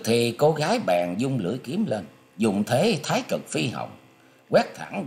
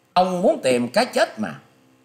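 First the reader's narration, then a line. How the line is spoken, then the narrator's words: Loud angry shout. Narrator (Vietnamese): Cô gái áo vàng quát to lên rằng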